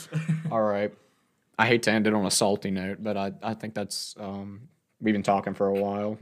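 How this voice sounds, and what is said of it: Tired voice. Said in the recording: “My voice is getting tired.”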